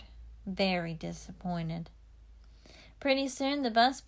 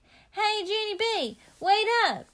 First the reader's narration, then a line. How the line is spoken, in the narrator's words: yelled Grace